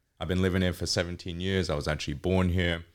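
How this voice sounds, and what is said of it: Mellowed English accent. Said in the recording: “it's mellowed out a lot, my accent. So, sometimes I sound like I'm from the country. I definitely could sound Australian. So, it's English, British, whatever you want to call it.”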